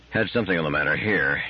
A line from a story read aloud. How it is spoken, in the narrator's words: he muttered